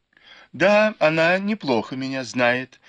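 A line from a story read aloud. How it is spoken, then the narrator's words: Laughing. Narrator (Russian): засмеялась Фэнзе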